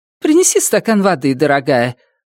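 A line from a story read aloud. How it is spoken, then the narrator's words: Forced cheerful tone. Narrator (Russian): отданным наигранно веселым тоном, каким часто родители разговаривают с детьми в присутствии посторонних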